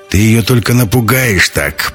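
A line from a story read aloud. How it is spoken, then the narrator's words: Displeased grumbling. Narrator (Russian): бурчал Ковальский, недовольный тем, что ему не дали поставить под письмом свое имя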